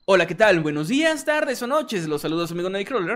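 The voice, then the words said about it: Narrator voice. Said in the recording (Spanish): “voz de narrador.”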